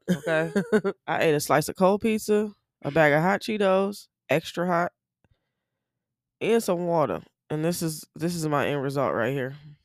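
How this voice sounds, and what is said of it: Rough, strained morning voice. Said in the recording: “sound like you're gonna lose your voice ... That's why I'm sounding shitty. This is my morning voice”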